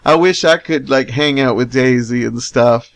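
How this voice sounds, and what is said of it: Put-on Southern US accent. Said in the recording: “I'm getting into this southern accent.”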